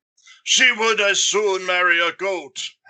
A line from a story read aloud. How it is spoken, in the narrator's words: howled his uncle